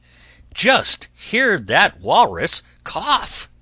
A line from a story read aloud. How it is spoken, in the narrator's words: cried the man in fright